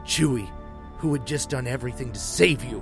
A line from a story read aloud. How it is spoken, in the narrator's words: Han said with a growl